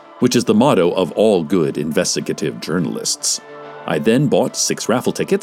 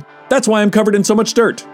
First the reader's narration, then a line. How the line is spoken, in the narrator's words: he barked, still looking at the ground